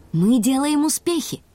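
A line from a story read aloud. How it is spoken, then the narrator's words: Joyful. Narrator (Russian): сообщил Карим радостно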